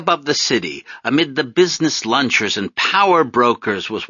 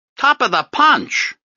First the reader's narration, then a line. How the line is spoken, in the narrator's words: I called out in my piping voice